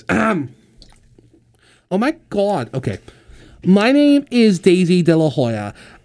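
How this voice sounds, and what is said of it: Impression of Daisy De La Hoya. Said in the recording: “let me try to do her voice.”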